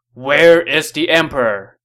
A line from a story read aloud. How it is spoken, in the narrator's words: A general yelled